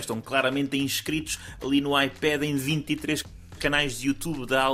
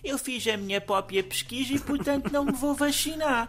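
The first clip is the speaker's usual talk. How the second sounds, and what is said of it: Imitates a child's voice. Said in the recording (Portuguese): “boa imitação”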